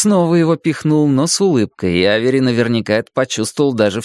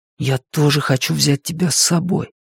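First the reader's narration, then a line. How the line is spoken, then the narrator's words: Whispered. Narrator (Russian): прошептал Люк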